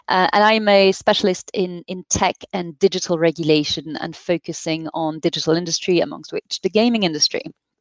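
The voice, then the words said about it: French accent in English. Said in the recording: “which you may hear from our accent. and I happen to be French”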